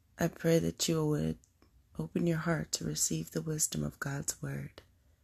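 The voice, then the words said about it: Raspy voice. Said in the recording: “excuse my voice's raspiness”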